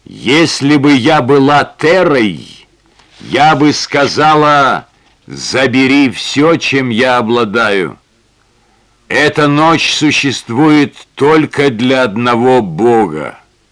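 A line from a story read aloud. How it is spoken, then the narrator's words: Clear voice. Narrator (Russian): Ясным голосом она произнесла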